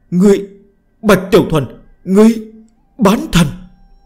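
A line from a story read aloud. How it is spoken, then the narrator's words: Terrified shrill scream. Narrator (Vietnamese): mang theo khủng hoảng mãnh liệt đến cực hạn, khiếp sợ vô cùng, thất thành hét lên chói tai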